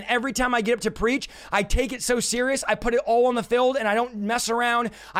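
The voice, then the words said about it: Loud, shouting preaching. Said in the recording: “I'm yelling and shouting”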